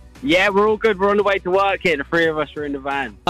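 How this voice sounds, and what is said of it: English accent. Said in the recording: “I wasn't expecting that accent... I'm English”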